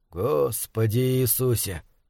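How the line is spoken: Whisper. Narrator (Russian): прошептал Брайан

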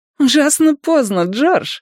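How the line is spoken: Woman giggling. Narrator (Russian): хихикнула первая женщина

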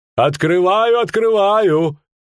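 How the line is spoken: Shouting. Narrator (Russian): крикнул Кодрингер

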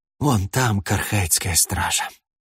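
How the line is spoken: Bitter exhalation. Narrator (Russian): С горечью выдохнул Эстравен

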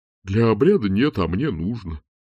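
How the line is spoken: Grumbling mutter. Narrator (Russian): пробурчал декан

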